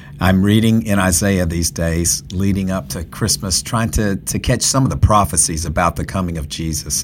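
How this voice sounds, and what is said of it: Congested voice from a cold. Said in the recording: “I have a cold, so I apologize in advance if this audio is not quite up to snuff.”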